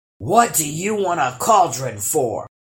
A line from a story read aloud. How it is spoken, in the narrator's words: grumbled the other